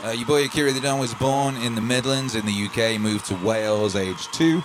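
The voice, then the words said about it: Jumbled mixed accent. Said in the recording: “Your accent is jumbled like mine.”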